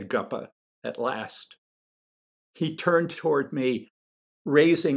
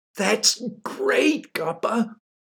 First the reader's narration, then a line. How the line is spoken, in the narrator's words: I cried with deep, genuine enthusiasm